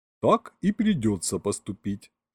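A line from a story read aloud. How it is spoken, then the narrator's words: Calm. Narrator (Russian): спокойно кивнул Ринкус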